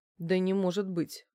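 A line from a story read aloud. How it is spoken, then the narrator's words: Grumble. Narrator (Russian): буркнула я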